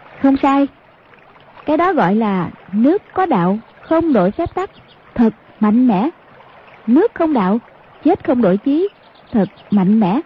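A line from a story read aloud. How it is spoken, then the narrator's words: Smiling. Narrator (Vietnamese): Hoàng Dung mỉm cười nói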